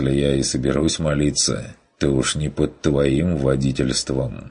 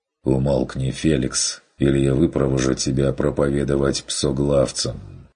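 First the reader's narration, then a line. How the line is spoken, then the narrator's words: Tired demand. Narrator (Russian): потребовал Ван Ален устало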